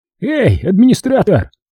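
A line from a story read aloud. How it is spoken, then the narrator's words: Hopeful shout after someone. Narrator (Russian): с надеждой крикнул вдогонку Вася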